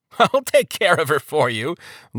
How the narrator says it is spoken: Lord Turnabout said, with a laugh

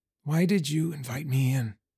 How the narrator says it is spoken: I whispered the question

